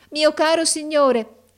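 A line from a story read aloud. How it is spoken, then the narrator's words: Called out on entering. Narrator (Italian): gridò essa entrando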